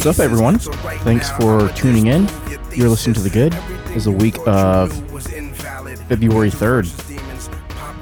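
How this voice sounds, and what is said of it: Announcer-style radio voice. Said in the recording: “you kind of got a radio voice”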